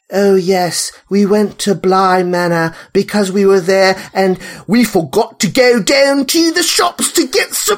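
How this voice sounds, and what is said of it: Exaggerated fake English accent, Carla Gugino. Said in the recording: “American people trying to do English accents ... Carla Gugino's accent is the craziest thing I have ever heard in my life ... Are you Cockney? Are you like from Devon?”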